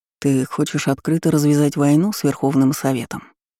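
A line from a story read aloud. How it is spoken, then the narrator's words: Calm. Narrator (Russian): спокойно уточнил Карпов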